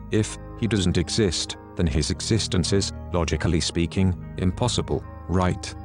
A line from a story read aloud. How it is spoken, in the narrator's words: answered